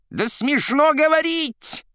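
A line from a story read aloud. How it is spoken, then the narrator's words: Shrill scream. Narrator (Russian): пронзительно закричал Римский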